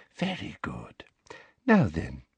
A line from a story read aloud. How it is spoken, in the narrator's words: she whispered